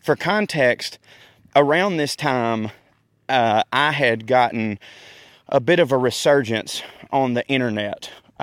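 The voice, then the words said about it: Out of breath, breathy speech. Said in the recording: “I'm out of breath, y'all. Whew, this pollen's killing me.”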